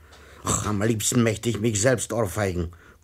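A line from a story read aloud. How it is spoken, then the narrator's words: Growling mutter to self. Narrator (German): knurrte der Herr Rat vor sich hin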